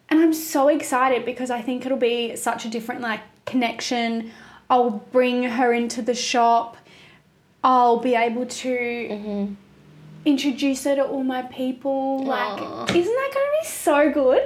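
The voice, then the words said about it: Teary, emotional voice. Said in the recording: “You're getting all teary. ... I'm getting teary. I'm emotional this pregnancy.”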